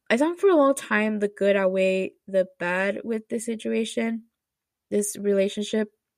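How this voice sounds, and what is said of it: Emotional, choked-up voice. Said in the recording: “why am I getting emotional? Oh my gosh.”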